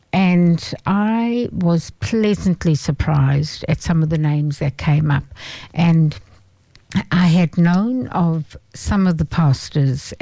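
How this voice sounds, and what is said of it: Speaks with a noticeable accent. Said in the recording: “anybody out there who doesn't understand my accent, if you want me to say pastor or pastor”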